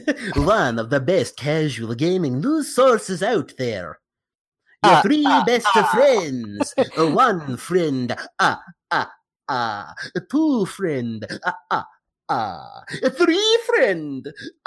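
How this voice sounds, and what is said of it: Vampire-like character voice. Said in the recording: “I do this voice. It might be offensive to vampires. ... I'm done with this voice now.”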